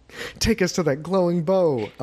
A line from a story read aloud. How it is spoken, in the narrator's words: Eleanor laughed, smiling